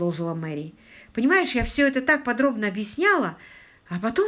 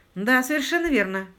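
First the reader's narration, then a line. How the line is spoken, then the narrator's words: Grim confirmation. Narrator (Russian): мрачно подтвердил Паркер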